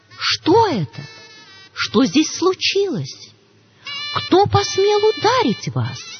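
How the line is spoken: Alarmed question. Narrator (Russian): тот, увидев, что лицо Юдхишхиры в крови, спросил

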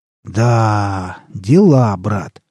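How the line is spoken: Proud drawl. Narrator (Russian): протянул Александр с гордостью

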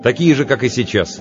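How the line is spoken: Somewhat sharp. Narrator (Russian): немного резко ответил я

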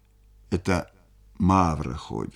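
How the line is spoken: Plain. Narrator (Russian): сказал Буркин

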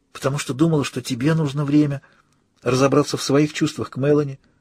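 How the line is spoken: Whisper. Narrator (Russian): прошептала я

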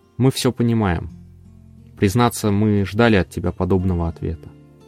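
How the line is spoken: Quiet voice. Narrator (Russian): Он негромко произнес

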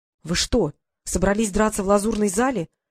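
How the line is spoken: Desperate exclamation. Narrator (Russian): в отчаянии воскликнул он

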